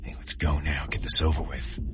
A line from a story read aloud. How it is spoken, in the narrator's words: Des whispered in my ear